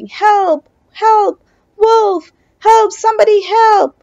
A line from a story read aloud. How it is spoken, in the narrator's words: The villagers heard his cries